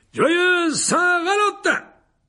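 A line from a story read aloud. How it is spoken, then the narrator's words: Exclaimed. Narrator (French): s'écria Lockhart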